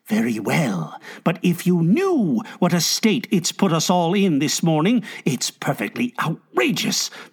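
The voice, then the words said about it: Hushed, quiet voice. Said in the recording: “she agreed in a hushed voice.”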